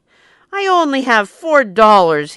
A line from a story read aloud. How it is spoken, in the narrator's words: he shouted